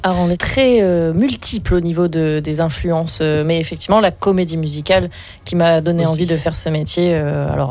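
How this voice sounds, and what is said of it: Toulon southern French accent. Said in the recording (French): “on sent l'accent toulonnais”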